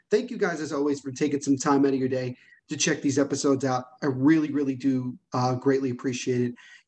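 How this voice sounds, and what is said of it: Quiet, low-toned voice. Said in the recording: “why am I talking so quietly? Why is my tone of voice so low?”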